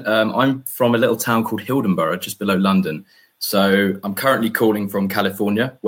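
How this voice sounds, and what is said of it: Posh English accent. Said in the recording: “I'm from the UK, as you could probably tell by my posh English accent.”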